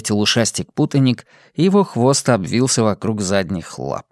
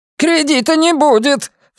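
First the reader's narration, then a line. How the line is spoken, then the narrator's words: Shrill, grating shout. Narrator (Russian): Все тем же пронзительным, вызывающим раздражение голосом выкрикнул Тук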